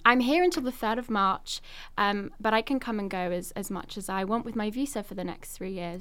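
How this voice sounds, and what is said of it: London English accent. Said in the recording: “Most of my family's back in London... I love your accent. It makes me feel right at home.”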